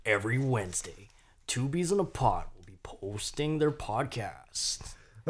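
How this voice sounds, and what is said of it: Imitates another person's voice. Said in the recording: “Why do you sound like the Burger King foot lettuce guy?”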